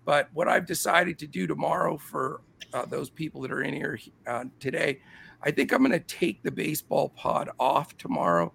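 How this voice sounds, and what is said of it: Strained, failing sick voice. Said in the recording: “I'm not getting a whole lot better. My voice is really going.”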